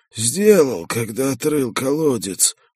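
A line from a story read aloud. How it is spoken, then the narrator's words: Wheezing. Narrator (Russian): просипел он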